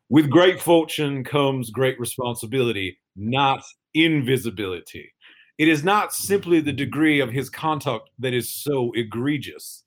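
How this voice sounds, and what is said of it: Imitates another person's voice. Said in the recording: “in my best Billy Payne voice”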